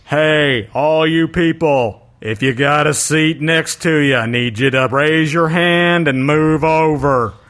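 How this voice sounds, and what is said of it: Patrick Warburton impression. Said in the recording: “That was a bit Patrick Warburton-y sounding, that impression. That was really good.”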